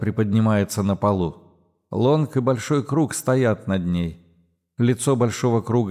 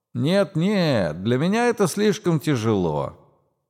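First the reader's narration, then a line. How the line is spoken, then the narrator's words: Distant sing-song voice. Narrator (Russian): где-то вне поля зрения характерным голосом нараспев отвечает Пауэлл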